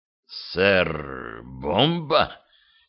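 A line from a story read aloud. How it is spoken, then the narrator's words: Hoarse, unrecognizable voice. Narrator (Russian): хрипло произнес, не узнавая своего голоса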